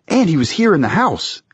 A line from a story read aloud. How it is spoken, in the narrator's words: Andra exclaimed